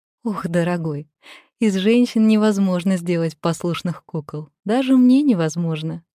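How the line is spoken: Laughing hostess. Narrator (Russian): засмеялась хозяйка

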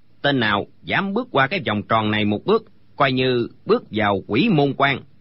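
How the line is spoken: Cold old man's speech. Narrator (Vietnamese): lão lạnh lùng nói

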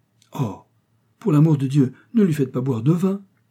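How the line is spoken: Exclaimed. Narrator (French): s'écria Mrs

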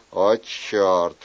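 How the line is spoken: Mutter. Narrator (Russian): пробормотал он

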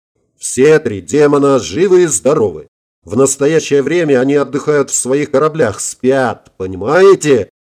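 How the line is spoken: Sudden yell. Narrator (Russian): Внезапно заорал он

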